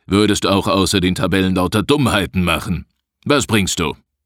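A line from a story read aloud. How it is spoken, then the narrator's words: Grim growl. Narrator (German): knurrte Rodenstein grimmig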